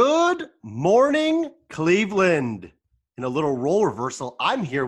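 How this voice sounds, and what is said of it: Usual voice. Nothing is said of it.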